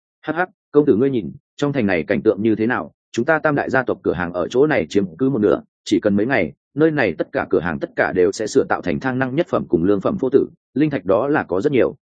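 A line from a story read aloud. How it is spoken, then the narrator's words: Faint dry laugh. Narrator (Vietnamese): cười nhạt nói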